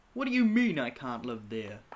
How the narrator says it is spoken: Nick asks, laughing

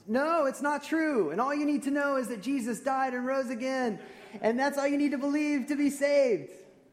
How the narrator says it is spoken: the folks in the back seat shouted almost

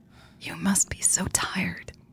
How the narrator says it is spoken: Jade whispered

